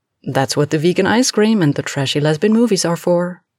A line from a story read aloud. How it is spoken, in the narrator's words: Alex replied cheerfully